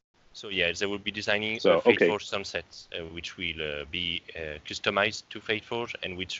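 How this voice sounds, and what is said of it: Noticeable accent. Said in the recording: “the accent was throwing me off a little bit”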